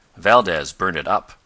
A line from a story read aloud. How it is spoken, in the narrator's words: answered Tal